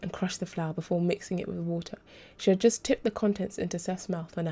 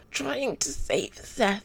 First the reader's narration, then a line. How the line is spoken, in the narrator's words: Shoza spluttered